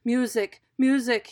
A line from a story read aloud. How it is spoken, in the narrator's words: he cried